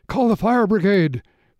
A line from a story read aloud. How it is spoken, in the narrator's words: cried Mrs